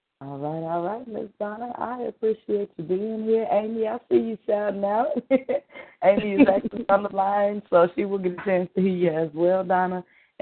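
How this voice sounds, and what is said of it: Slightly hoarse voice. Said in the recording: “I'm a little bit hoarse this evening”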